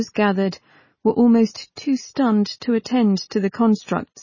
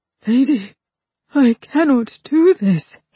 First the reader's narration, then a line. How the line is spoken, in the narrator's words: he breathed